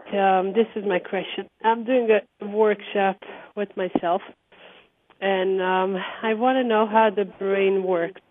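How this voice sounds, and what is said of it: Muffled, congested voice. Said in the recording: “My voice is like from the clouds because I have this allergy”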